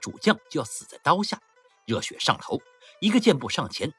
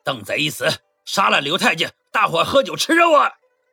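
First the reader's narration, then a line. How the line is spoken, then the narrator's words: Crowd battle cry. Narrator (Chinese): 聚集的官兵呐喊着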